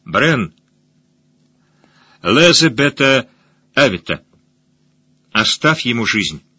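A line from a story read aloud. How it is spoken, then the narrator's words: Clear loud old man. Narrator (Russian): слепой старый сакс и сказал ясно и громко, так что слышали все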